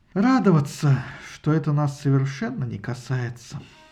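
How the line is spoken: Heavy sigh, weary reply. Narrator (Russian): Исида вновь тяжело вздохнула и ответила

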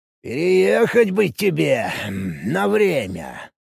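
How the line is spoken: Drawling. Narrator (Russian): протянул Данди

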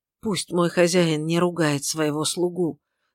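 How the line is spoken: Labored mutter. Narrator (Russian): с трудом пробормотал он

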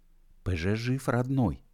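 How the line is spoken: Whispered. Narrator (Russian): шепотом сообщил он

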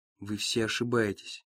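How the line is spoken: Quiet. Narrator (Russian): тихо говорит Ники

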